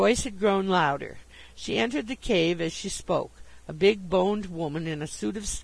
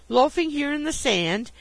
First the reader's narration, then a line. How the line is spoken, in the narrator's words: she exclaimed